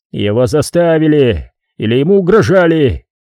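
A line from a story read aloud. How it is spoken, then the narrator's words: King growling. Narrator (Russian): прорычал король Франы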